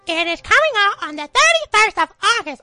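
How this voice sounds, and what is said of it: Elmo puppet character voice. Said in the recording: “My Elmo accent”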